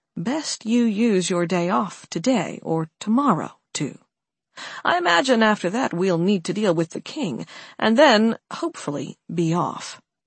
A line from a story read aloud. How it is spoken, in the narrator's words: Alex murmured softly, leaning in close to Carla